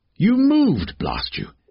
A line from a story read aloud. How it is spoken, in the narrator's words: cried